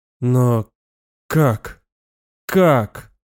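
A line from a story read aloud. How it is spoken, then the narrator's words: Strained, forced out. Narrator (Russian): Вот и все, что мог выдавить из себя Роуэн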